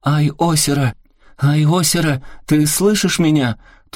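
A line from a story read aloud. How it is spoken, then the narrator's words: Shout through cupped hands. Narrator (Russian): Киёми приложила руки рупором и крикнула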